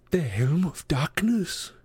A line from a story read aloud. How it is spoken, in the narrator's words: Grover gasped